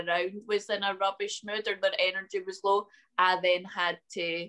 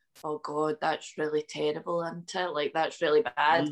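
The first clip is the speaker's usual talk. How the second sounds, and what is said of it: Low-energy sad dropped voice. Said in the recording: “that was such a good impression ... the difference in ... then just dropping ... that tone of voice, you would have felt sad”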